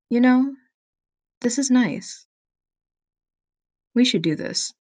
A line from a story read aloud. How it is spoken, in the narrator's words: Vix looks very genuine and very sweet, and softly says